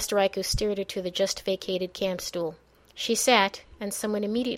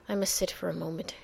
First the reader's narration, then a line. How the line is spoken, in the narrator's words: murmured